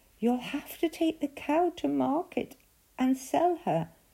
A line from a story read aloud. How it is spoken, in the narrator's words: Jack's mother said sadly